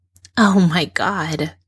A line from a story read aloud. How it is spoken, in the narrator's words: she says, but there's a laugh in her voice